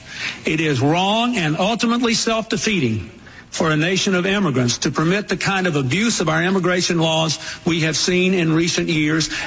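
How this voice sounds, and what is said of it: Southern American accent. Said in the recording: “Bill Clinton's still a Democrat, right? ... That could have been Trump saying that, except for the Southern accent.”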